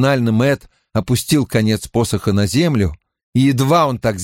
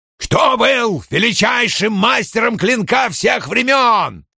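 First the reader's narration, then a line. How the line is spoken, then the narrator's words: Raised voice, nearly shouting. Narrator (Russian): Страж возвысил голос, почти закричав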